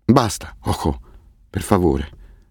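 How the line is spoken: Trembling murmur. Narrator (Italian): mormorò con la voce che gli tremava

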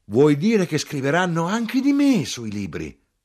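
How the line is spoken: Flushed, hurried exclamation. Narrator (Italian): rossa in faccia, fuoco e fiamme, a precipizio esclamò

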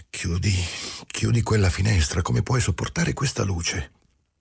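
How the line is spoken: Exclaiming. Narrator (Italian): esclamando

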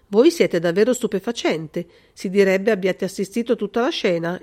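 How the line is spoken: Colonel's exclamation. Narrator (Italian): esclamò il colonnello

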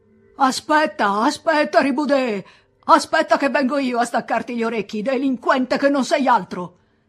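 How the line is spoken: Priest shouting in fury. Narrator (Italian): attaccò a gridare il prete con voce traboccante di collera

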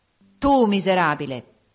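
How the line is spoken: Spirit, contemptuous tone. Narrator (Italian): disse lo spirito in un tuono d'eccessivo disprezzo

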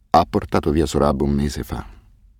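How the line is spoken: Choked, muffled voice. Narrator (Italian): disse infine con una voce strozzata, tenendo le mani sul volto

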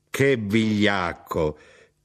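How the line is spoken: Shouted. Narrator (Italian): lei gridò

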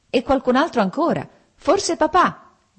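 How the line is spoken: Shouting. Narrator (Italian): gridò Lievin

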